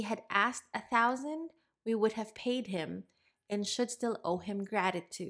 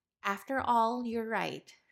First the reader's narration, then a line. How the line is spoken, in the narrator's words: replied the sage